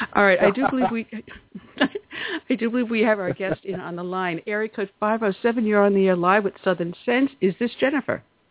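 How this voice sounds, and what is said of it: Hoarse, froggy voice. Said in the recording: “I have been losing my voice all day, so if I'm sounding a little froggy”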